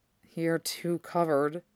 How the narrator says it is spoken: he murmured, voice low

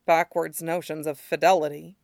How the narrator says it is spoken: Alistair mumbles

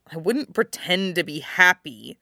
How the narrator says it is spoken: Jon snaps

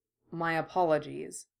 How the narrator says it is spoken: he murmured

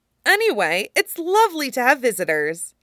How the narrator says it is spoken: Meryl said brightly

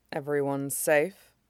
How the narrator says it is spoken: Toka asks quietly, voice soft enough that he could ignore it

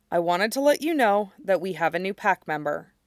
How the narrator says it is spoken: takes a breath to steady himself, and then, carefully keeping his voice even, he says

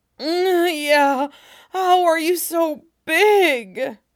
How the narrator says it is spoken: Tim moaned out

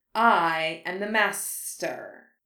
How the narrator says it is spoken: Voldemort hissed

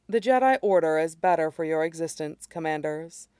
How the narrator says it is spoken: she says gently

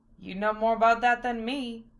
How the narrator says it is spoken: Val chuckled

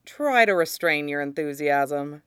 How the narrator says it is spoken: Tyrion said dryly

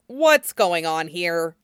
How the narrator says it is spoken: Jiang Cheng snapped

